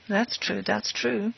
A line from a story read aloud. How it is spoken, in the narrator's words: muttered the magistrate, who was obviously interested